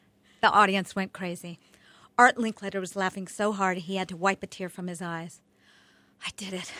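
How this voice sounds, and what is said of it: Usual voice. Nothing is said of it.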